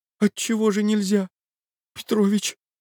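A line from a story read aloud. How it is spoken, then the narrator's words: Childlike pleading. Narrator (Russian): сказал он почти умоляющим голосом ребенка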